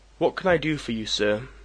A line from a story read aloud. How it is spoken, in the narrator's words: I asked blandly, astonished